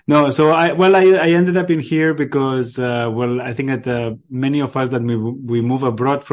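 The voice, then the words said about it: Catalan Spanish accent. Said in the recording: “I'm going to take from your accent and from your name, I'm assuming you're from Barcelona.”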